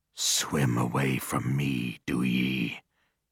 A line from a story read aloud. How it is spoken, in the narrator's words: he murmured